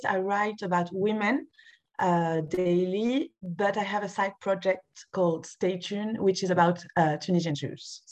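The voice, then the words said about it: French accent. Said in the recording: “you are obviously French, which we can hear from your lovely accent”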